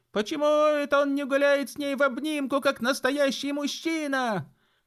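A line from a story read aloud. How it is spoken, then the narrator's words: Kids yelling in chorus. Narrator (Russian): завопили хором остальные сорванцы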